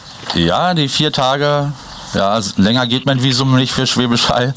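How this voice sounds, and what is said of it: Berlin German dialect. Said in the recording (German): “Dein nudeliger Berliner Dialekt”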